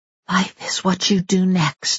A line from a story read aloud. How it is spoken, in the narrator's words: whispered to herself